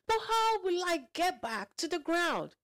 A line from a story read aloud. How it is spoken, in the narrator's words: cried